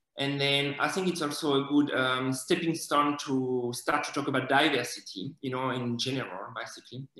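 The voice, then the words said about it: Non-native English accent. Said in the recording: “my accent, because obviously, you know, I have it and there's not much I can do about it ... ask the kid to guess where I'm from”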